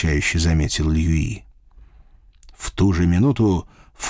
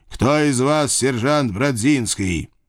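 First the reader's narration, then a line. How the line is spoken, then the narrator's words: Loud question, commander. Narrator (Russian): Высокий черт, видимо, их командир, громко спросил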